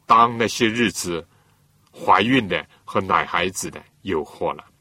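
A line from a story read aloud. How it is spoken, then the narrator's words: Sympathetic sigh. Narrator (Chinese): 耶稣满怀同情的感叹道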